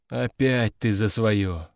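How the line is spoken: Sighing. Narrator (Russian): вздохнул Овод

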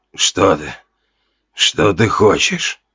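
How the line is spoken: Creaky voice. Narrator (Russian): проскрипел

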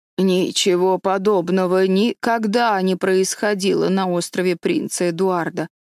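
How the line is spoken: Plain. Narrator (Russian): сказала Марила

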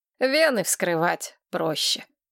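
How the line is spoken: Sighing. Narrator (Russian): вздохнул Винсент

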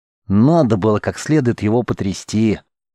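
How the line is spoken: Displeased grumble, girl. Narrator (Russian): пробухтела недовольным голосом девушка

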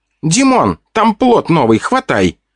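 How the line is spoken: Demonic exclamation. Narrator (Russian): Воскликнул демон

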